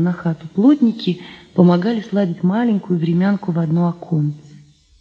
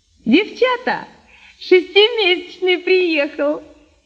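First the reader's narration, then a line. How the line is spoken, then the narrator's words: Woman shouting. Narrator (Russian): крикнула птичница Нинка Арбузова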